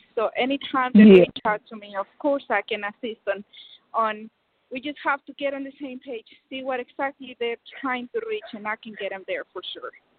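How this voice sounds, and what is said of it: Noticeable accent. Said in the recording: “we can hear the accent, so you're authentic”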